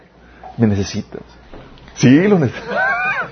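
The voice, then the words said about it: Whispered, tempting voice. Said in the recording (Spanish): “sientes que te susurra.”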